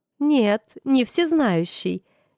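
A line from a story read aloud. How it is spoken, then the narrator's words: Laughing, anger gone. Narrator (Russian): рассмеялась она, видимо, растеряв утренний запас злости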